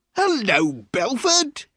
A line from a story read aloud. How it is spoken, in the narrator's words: cried loudly